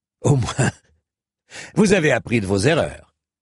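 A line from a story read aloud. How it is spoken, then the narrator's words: Sneering laugh. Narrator (French): ricana Sir Fitzurse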